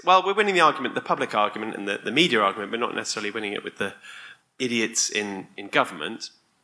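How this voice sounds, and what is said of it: Slightly croaky voice. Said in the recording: “my voice sounds a bit croaky, I'm kind of coming out the back of a rotten cold”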